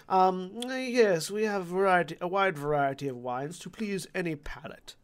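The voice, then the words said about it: Well-spoken dwarf character voice. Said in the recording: “The dwarf is the best spoken. The dwarf speaks like this as well. He doesn't have the uh, stereotypical dwarf accent.”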